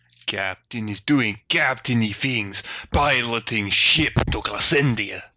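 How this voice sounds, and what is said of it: Put-on wandering foreign accent. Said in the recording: “Great ... wandering accent does not know quite exactly the word.”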